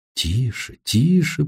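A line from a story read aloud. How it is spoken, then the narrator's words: Whisper. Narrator (Russian): прошептала Сесси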